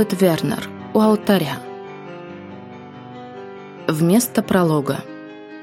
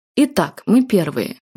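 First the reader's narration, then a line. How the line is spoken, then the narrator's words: Young man exclaiming. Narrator (Russian): воскликнул высокий, стройный молодой человек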